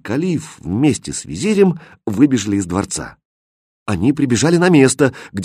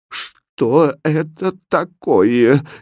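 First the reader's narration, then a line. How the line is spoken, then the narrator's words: Helpless babbling. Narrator (Russian): беспомощно лепетал он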